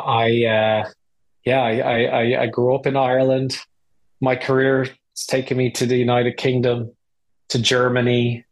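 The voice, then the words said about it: Irish accent. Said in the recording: “You might hear, first of all, from my accent that I'm not native to these shores. I'm Irish.”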